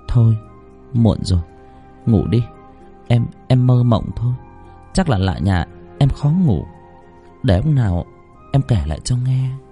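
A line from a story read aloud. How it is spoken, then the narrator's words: Soft reassuring woman. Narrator (Vietnamese): Không muốn chồng lo lắng, cô khẽ đáp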